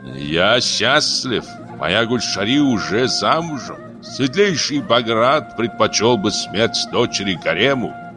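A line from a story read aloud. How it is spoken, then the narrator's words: Slow, through gritted teeth. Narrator (Russian): Баграт медленно процедил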